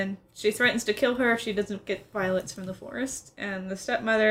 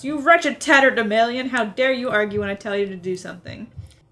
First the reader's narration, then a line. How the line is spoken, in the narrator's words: Slugworth shouts